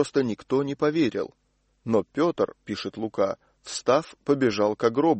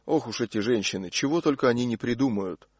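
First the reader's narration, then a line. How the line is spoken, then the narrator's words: Student muttering. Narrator (Russian): кто-нибудь из учеников пробормотал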